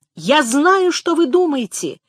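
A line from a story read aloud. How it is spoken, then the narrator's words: Desperate shout. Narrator (Russian): крикнул Хенчерд, в полном отчаянии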